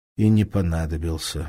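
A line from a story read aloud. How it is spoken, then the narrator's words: Sighing. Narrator (Russian): вздохнул Лыков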